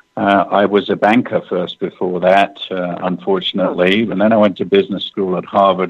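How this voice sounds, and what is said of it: English accent. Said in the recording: “you can probably tell from my accent that I didn't grow up here. I actually grew up in England”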